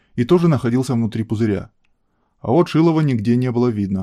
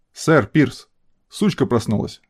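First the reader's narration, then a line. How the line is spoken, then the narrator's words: Metallic announcing voice. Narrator (Russian): оповестил 13-й металлическим голосом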